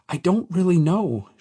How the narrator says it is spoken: she stammered

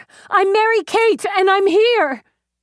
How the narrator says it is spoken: Someone screamed

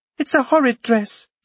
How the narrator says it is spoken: she cried, almost gasping with excitement

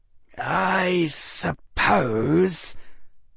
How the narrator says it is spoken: Harry Potter spat

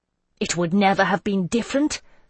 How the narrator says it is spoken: I said harshly, willing the words to hurt her

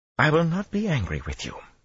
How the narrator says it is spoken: she went on in a much milder tone, and that sounded addressed to herself as well

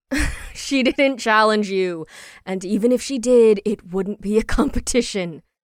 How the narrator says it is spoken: Ash said with a laugh

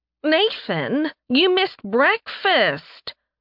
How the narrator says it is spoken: a familiar voice whined

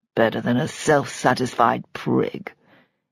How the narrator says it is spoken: Antony muttered under his breath

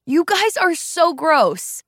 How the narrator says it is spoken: Lee yelled

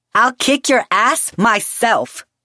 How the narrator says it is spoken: she shouted furiously

